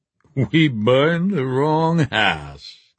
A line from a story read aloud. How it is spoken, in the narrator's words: he said, and laughed